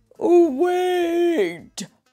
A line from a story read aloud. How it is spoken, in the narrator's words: bellowed Mr